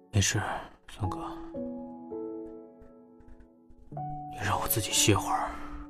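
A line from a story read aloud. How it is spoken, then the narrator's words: Low, weak voice. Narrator (Chinese): 他的声音低而微弱地传出来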